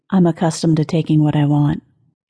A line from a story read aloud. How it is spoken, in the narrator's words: she said softly